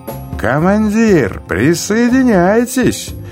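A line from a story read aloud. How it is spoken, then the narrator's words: Shout. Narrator (Russian): крикнул Чероки капитану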